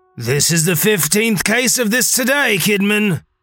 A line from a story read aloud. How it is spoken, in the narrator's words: one officer yelled to a second